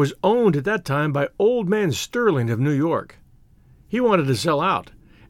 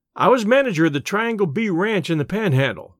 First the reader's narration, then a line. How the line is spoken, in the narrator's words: said Bud